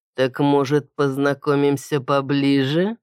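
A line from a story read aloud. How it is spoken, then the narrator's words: Purring. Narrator (Russian): мурлыкнул он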